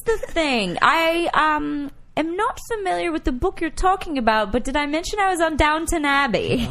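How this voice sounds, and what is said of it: Put-on British accent. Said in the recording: “Is he a British accent? ... He does.”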